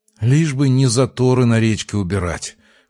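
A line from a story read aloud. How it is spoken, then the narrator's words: Noisy exhale. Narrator (Russian): шумно выдохнул Артем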